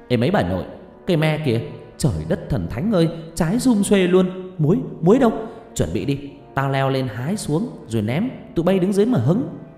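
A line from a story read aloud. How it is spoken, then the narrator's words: Shouting. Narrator (Vietnamese): thằng Tam hét lên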